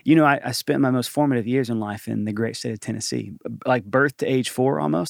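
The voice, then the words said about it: Southern American accent. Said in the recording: “Southern accent? ... I'd like to think I have a Southern accent, do I? ... You do. ... It comes out probably more in moments like this”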